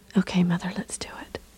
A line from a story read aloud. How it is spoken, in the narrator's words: whispered